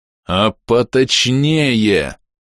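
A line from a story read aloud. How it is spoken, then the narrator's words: Growl. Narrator (Russian): рыкнул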